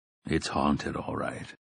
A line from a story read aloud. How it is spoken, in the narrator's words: Roland said grimly